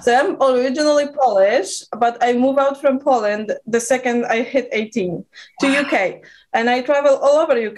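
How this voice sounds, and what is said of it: Eastern European accent with British tinge. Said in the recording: “my accent is a traveler... my accent is literally all over the place... There's some Eastern European, but there's also this very UK kind of English vibe”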